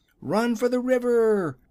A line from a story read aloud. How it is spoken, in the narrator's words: shouted the wizard